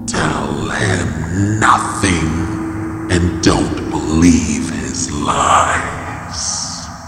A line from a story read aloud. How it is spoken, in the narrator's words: the creature hissed